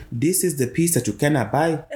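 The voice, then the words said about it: Speaks in a put-on accent. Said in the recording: “Where did that accent come from?”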